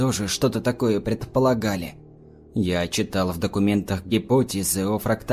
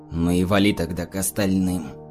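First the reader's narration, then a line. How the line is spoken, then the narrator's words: Hoarse. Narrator (Russian): хрипло проговорил он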